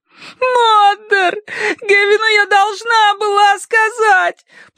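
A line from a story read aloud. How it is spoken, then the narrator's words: Sobbing. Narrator (Russian): прорыдала она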